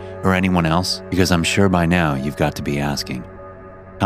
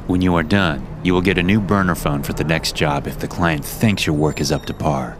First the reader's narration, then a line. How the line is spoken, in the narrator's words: he said with a sneer